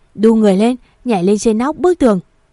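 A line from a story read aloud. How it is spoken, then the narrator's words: Shouting. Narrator (Vietnamese): Anh ta hét lên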